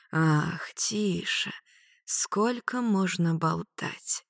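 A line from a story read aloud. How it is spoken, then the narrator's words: Whisper. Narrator (Russian): прошептал дракон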